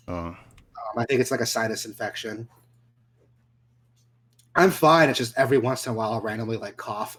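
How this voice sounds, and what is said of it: Congested, stuffed-up nasal voice. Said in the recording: “it's all like mucus buildup ... it's in my nose, so you can kind of hear me talking. I sound a little stuffed up.”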